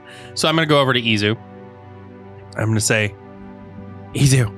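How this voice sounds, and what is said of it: Usual voice. Nothing is said of it.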